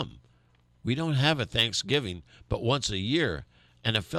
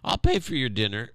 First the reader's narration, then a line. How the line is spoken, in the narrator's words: Bert exclaimed